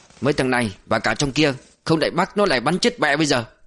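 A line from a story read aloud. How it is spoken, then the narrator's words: Annoyed. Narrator (Vietnamese): đại đội trưởng khỏe cau mặt bực bội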